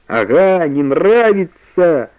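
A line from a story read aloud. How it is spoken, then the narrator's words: Laughing. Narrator (Russian): засмеялась Валя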